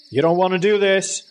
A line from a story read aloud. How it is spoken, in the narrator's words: Dad yelled